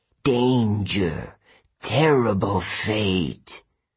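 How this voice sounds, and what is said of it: Dry hissing voice. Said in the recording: “she hissed in a dry voice”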